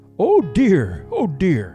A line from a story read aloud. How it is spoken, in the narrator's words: exclaimed Papa Panov